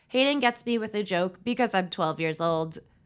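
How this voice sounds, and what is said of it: Imitates another person's voice. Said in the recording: “Was that a good Gabby impression? ... you really have to do a Jennifer Coolidge voice plus age it down 10 years”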